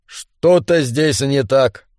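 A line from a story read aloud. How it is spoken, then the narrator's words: Gloomy statement. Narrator (Russian): мрачно констатировал Гарри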